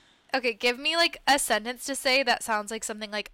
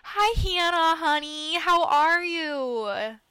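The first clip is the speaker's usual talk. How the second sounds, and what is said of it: Put-on Midwestern mom accent. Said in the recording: “I'm so good at a Midwestern mom accent ... a nice Midwestern mom would say”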